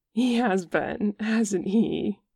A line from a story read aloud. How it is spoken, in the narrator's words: says Jimin, giggling